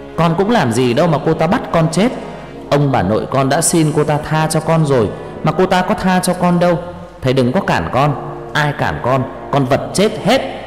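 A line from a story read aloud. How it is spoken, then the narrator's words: Shouting. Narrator (Vietnamese): Nó hét lên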